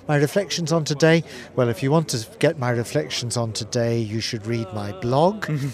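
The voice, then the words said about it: Northern Irish accent. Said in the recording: “as you'll hear from my accent, I've spent most of my life in the Church of Ireland and living and working in Northern Ireland”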